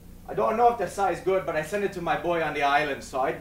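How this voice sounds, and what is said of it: Imitated Jamaican accent. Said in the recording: “you're going to hear me try to imitate a Jamaican accent.”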